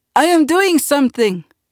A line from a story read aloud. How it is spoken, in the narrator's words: Uncle cried